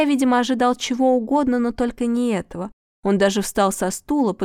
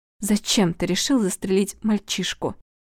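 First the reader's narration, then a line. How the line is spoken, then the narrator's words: Trembling voice. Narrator (Russian): дрогнувшим голосом спросила Светлана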